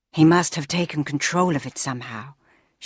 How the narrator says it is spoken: she sighed

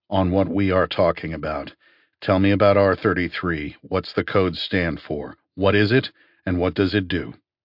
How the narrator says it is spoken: I said coldly

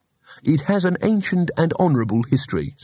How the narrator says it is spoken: said Rincewind, his voice stiff with injured civic pride

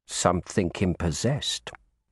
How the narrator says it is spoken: he added in a low voice

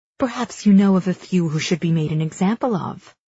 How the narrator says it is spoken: she says calmly

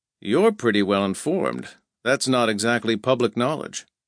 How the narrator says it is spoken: This caught Pug off guard, but he said calmly

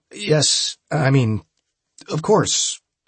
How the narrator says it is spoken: I stammered

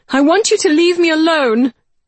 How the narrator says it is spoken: I shouted then, the wind burning my cheeks, stealing my words

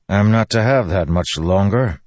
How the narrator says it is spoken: Dalinar grumbled

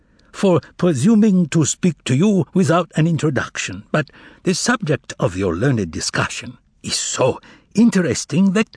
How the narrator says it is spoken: he said, speaking correctly but with a foreign accent

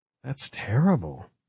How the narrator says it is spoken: breathed Margot

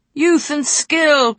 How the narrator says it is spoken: cried another man Ali knew well, Neelan of Queenscove, her mother's former squire

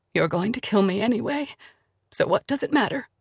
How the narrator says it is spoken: Blum said quietly, her voice trembling

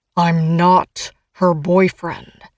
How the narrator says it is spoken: seethes through clenched teeth

